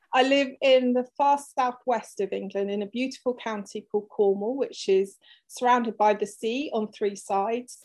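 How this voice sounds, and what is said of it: English accent. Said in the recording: “I'm from England, if you didn't tell from the accent.”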